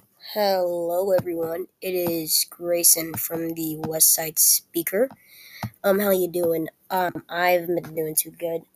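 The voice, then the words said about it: Weak, unclear sick-sounding voice. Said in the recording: “my voice sounds weak or unclear ... it's probably because I'm sick”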